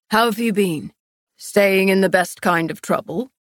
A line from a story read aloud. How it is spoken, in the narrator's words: Castile chuckled